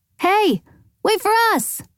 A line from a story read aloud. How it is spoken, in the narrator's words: Allie called out